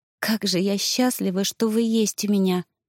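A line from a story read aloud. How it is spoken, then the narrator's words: Soft whisper. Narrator (Russian): прошептала тихо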